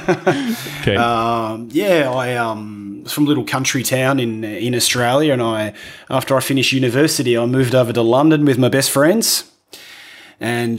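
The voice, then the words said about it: Rough Australian accent. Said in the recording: “I'm from Australia, as you can tell by my rough accent.”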